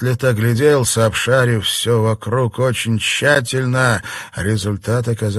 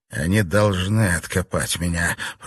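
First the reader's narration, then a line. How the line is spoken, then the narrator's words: Mumbled. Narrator (Russian): пробормотал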